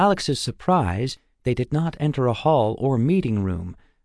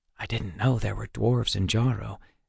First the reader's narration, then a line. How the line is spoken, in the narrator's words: Alex whispered to Waylon